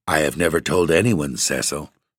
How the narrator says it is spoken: said Virginia, gravely

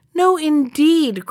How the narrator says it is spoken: cried the mouse with the cropped ears

